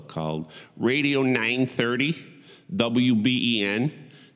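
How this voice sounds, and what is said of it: Put-on Buffalo accent. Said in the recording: “That's my one of my that's my best Buffalo accent.”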